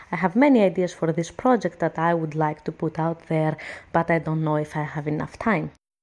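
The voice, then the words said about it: Greek accent, fast speech. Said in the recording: “when you have a Greek accent ... our accent is close but not that close with a Spanish accent. We talk really, really, really, really quickly ... we have these aras you can hear and then we don't do the su and the chu sound as you can hear that I'm not doing”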